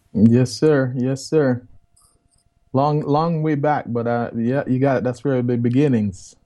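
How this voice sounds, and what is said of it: Jamaican accent. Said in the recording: “they can tell by the accent that you are from the beaches of Jamaica”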